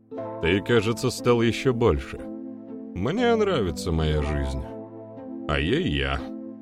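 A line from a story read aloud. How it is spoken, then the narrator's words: Chuckling. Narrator (Russian): хохотнул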